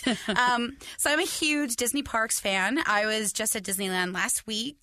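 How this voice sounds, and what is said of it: Hoarse, strained voice. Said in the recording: “You can hear it in my voice still because I was screaming still all day on Saturday... my voice is a little crazy right now”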